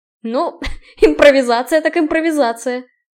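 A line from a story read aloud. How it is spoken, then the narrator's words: Snorted. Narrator (Russian): фыркнул Киган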